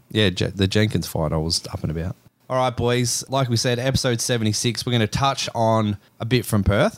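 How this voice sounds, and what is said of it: Recovering voice, slightly hoarse. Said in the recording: “I lost my voice early ... It's still recovering, to be honest. You'll hear from me, I'm still a little bit funny about it”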